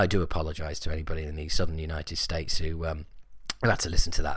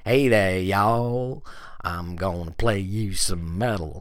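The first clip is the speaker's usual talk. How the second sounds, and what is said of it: Put-on Southern US drawl. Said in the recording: “Southern United States drawl ... That must have been like having sandpaper ground into your ears.”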